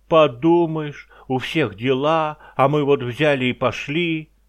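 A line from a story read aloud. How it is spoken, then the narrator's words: Fleas shouting. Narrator (Russian): блохи опять как закричат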